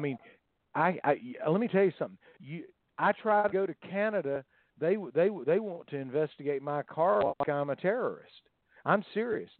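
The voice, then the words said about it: Southern American accent. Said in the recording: “People do not like my Southern accent.”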